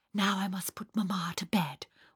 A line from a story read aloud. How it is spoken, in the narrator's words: whispered Fräulein Sonja